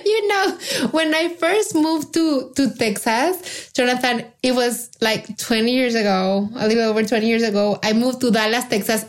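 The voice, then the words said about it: Heavy non-native accent in English. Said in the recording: “I have the very heavy accent”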